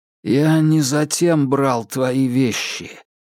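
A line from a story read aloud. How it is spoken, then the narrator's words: Strange, unfamiliar voice. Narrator (Russian): проговорил Стефан чужим голосом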